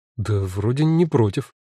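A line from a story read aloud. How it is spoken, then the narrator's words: Uncertain reply. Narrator (Russian): неуверенно откликнулась Алена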